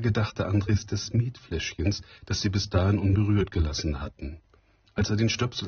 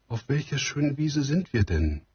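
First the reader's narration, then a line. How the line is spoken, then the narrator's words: Called out. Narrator (German): rief sie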